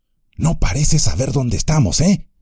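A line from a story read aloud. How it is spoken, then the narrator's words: Whispering. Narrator (Spanish): susurró Sam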